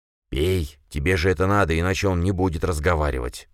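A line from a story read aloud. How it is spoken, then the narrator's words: Hissing. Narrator (Russian): прошипел он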